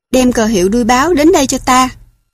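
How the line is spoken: Shouting. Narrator (Vietnamese): quát

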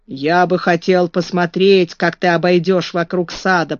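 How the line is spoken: Grumbling. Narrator (Russian): проворчал Бен

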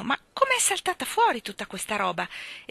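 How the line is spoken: Exclamation. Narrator (Italian): esclamò Michael

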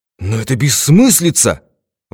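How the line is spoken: Exclamation. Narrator (Russian): воскликнул Смит

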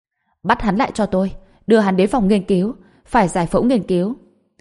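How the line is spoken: Furious yell. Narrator (Vietnamese): Tarina vô cùng tức giận, liền gào lên với Rick

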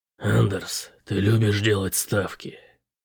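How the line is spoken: Quiet question. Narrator (Russian): тихо спросил Бэтрим

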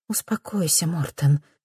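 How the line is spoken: Gentle soothing, mother. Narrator (Russian): мягко увещевает мама

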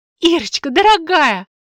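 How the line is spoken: Joyful exclamation. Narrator (Russian): радостно воскликнула мать

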